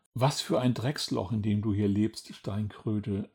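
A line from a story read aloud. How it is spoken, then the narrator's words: Bird sighing. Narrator (German): seufzte der Vogel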